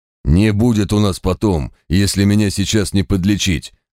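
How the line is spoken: Roar. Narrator (Russian): взревел квас

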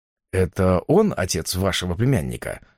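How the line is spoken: Neutral question. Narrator (Russian): спросил нейтральным тоном

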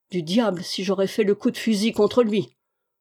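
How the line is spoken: Grumbling. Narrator (French): grommela Goton

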